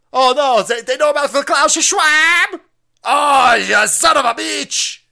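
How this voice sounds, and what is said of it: Put-on Mexican accent. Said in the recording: “That accent doesn't make any sense... that was probably racist towards Mexicans”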